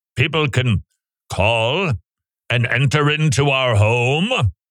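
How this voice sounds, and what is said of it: Imitates a butler's voice. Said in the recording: “That's my impression of the butler.”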